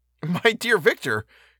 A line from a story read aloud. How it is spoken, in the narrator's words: cried he